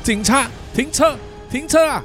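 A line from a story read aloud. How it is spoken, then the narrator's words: Two people shouting. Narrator (Chinese): 他们两个人大喊说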